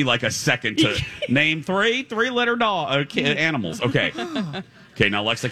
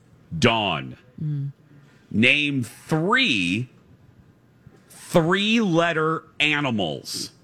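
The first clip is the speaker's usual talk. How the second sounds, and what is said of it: Slow, deliberate speech. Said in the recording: “I'm going to say this slowly”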